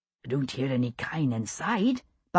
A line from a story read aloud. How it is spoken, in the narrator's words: Buck whispered